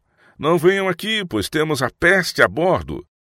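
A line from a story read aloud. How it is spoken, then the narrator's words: Men shouting from the rigging. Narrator (Portuguese): os homens que estavam nas vergas das velas gritaram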